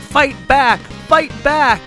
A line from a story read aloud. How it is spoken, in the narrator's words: the voice inside that cried out